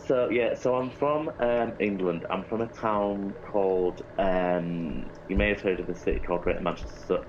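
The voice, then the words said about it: English accent. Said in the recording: “my accent, because most people, you know, if they know an English accent... oh my god, you're British”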